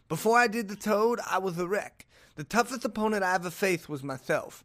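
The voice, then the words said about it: Imitates another person's voice. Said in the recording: “roast me for my Mike Tyson impression. I feel good about it, but something is just a little off.”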